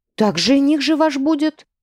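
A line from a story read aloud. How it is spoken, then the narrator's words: Artless exclamation. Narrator (Russian): бесхитростно воскликнула Цветана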